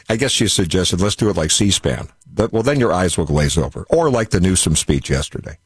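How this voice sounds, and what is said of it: Rich broadcaster-style radio voice. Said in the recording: “you sound like you have a radio voice ... your radio voice”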